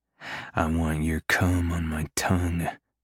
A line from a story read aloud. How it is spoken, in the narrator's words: I growl